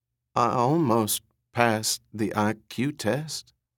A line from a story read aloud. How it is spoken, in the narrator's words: he said in a low, shaky voice